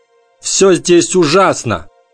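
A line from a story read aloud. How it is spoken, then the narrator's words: Loud. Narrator (Russian): громко сказал он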